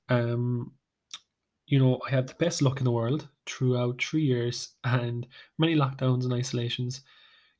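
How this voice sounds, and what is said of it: Hoarse, ticklish throat. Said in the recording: “My throat is as hoarse and as ticklish as ever as ever has been”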